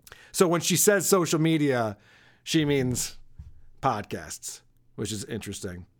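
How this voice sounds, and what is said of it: Usual voice. Nothing is said of it.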